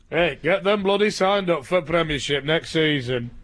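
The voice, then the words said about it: Imitates a football manager's voice. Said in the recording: “Mick McCarthy there, obviously ... that brilliant impression”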